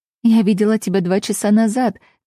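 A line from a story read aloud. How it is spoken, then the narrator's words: Laughing. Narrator (Russian): засмеялась я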